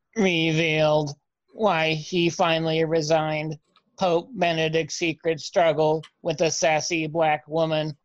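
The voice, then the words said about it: Robot voice. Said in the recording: “your accent is robot”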